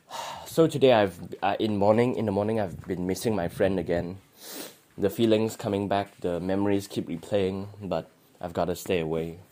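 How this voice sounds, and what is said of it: Hoarse, sore-throated voice. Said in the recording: “I suddenly have a cold, then I have a sore throat, now my voice is like this.”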